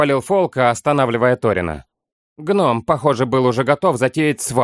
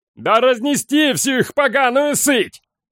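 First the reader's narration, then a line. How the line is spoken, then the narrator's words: Yell from crowd. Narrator (Russian): завопил кто-то в толпе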